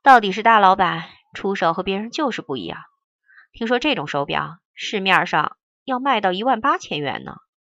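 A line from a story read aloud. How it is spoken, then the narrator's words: Admiring exclamation. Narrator (Chinese): 罗思义感叹道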